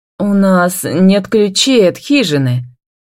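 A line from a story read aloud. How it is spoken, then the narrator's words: Mumbling. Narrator (Russian): мямлит Сеймур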